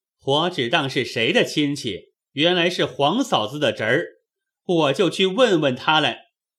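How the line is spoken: Cold sneer. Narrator (Chinese): 宝玉冷笑道

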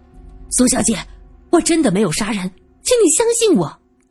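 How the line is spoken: Hurried shout. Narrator (Chinese): 顾之秋……急忙喊着

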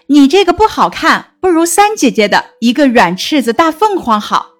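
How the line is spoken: Laughing. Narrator (Chinese): 宝琴笑道

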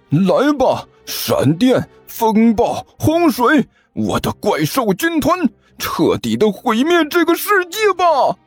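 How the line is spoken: Boy roaring. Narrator (Chinese): 那个少年大吼了一声

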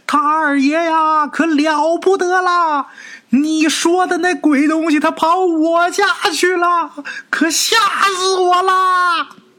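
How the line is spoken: Panicked breathless distant shout. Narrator (Chinese): 长安他娘一脸惊慌的 跑得气喘吁吁，远远的就开始喊

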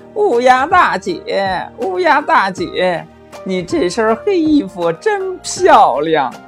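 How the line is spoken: Fawning, smiling. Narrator (Chinese): 狐狸满脸堆笑的说

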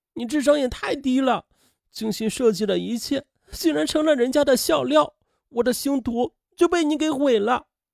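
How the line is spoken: Tearful, desperate blaming. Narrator (Chinese): 青青哭成了泪人她拼命的责怪母亲

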